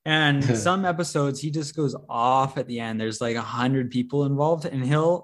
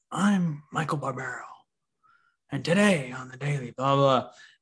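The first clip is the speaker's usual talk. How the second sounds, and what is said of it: Michael Barbaro impression, sexy voice. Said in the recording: “that sexy voice”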